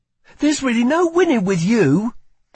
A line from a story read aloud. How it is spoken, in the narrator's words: she snapped back